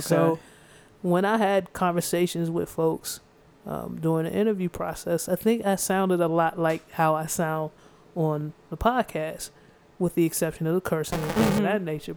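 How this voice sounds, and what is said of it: Speaks with a twang. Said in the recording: “I think it's pretty clear that I'm black from my voice... And the twang. I can't get rid of the twang”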